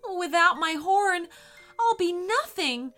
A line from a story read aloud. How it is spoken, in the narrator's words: cried Camden